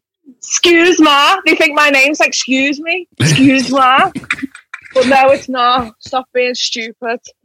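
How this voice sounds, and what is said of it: Scouse Liverpool English accent. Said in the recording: “I'm from Liverpool, which is in England, and our accent is known as, it's called Scouse”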